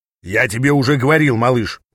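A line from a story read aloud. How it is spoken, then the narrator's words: Booming voice near ear. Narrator (Russian): прогремел голос у меня над ухом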